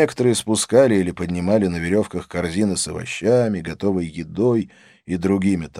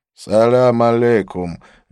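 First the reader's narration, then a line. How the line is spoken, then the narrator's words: Lazy drawl. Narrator (Russian): лениво промолвил он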